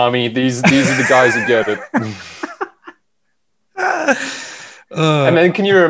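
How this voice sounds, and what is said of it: Usual voice. Nothing is said of it.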